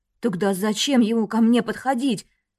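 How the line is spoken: Trembling voice. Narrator (Russian): Дрожащим голосом она сказала

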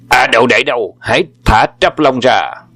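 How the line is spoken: Loud call. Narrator (Vietnamese): Âm Trường Hà bèn gọi lớn tiếng

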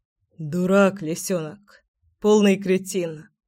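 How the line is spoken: Hoarse joyless chuckle. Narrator (Russian): Хрипло и совсем невесело усмехнулся гром

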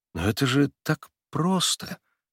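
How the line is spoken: Uncertain. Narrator (Russian): неуверенно проговорил

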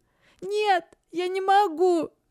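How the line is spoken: Sobbing. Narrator (Russian): всхлипнула Лисия

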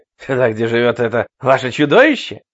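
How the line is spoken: Question, then hoarse laughter. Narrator (Russian): спросил Рой и хрипло расхохотался

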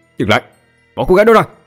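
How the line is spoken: Shout. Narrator (Vietnamese): Tôi hét vào mặt bốn tên cầm thú

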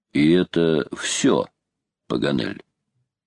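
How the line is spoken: Calm, steady question. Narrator (Russian): майор спросил-таки своим неизменно спокойным голосом

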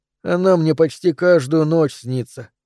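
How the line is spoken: Boy sighing. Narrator (Russian): вздохнул мальчик

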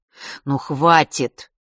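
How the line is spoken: Irritated. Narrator (Russian): начал Леня раздраженно

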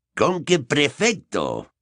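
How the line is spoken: Growled. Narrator (Spanish): gruñó Moody

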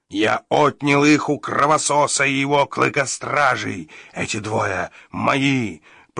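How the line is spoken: Monster's growl. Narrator (Russian): прорычал растерзяк

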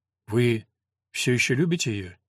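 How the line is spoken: Quiet question. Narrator (Russian): тихо спросила Елена

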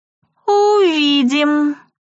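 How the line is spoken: Drawled. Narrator (Russian): протянула Этери

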